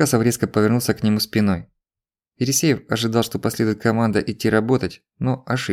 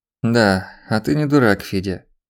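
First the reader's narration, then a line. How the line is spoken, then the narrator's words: Drawled. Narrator (Russian): протянул шеф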